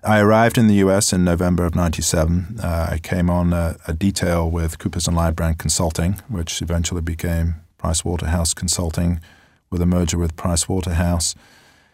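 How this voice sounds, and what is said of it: Non-American foreign accent. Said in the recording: “You probably tell from my accent that I'm not born and raised in Huntsville, Alabama.”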